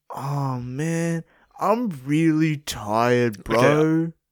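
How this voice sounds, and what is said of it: Tired-sounding imitation of another person. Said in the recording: “I'm just trying to be a tired bitch. I thought I pulled it off ... that impression was spot on for a tired bitch”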